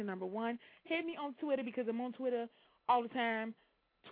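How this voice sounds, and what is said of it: Usual voice. Nothing is said of it.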